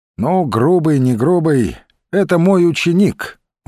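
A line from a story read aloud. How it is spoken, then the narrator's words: Sighed. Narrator (Russian): вздохнул он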